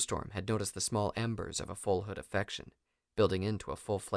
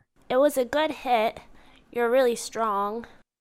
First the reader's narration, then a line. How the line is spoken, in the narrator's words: complimented